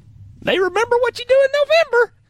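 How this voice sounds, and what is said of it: Poor Houston Nutt impression. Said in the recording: “was not a great Houston Nutt impression”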